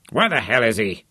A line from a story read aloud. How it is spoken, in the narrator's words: Johnny scowled impatiently